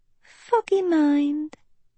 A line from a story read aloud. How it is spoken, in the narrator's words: Uma sighed